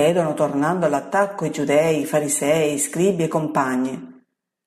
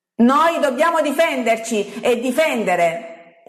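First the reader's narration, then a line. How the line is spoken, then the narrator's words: Frenzied shouting. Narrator (Italian): urla un giudeo scalmanato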